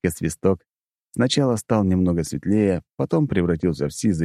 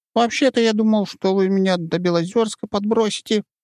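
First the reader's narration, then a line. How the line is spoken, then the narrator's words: Squeaky. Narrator (Russian): пропищал он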